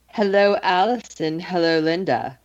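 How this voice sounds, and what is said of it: Seductive, sultry voice. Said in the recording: “do that seductive voice”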